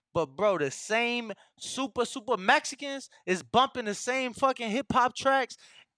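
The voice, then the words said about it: Urban street accent. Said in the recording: “This is my hood accent”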